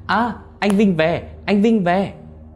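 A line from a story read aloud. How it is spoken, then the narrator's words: Child shouting. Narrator (Vietnamese): thằng cu nhím, nó la lên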